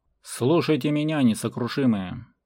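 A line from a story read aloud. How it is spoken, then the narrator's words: Thunderous roar. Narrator (Russian): Взревел он так, что вечно голодные комары поперхнулись и шарахнули в стороны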